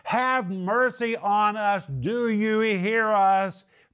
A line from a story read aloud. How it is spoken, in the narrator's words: They're yelling and screaming, two blind men